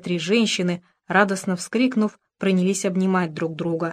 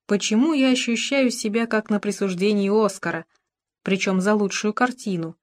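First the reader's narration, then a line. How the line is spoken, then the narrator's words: Plain. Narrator (Russian): сказала Мюриэль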